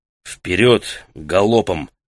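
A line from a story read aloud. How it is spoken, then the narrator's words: Quiet, commanding, carrying. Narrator (Russian): негромко приказал Таита, но при этом использовал голос силы, и его приказ расслышали все в строю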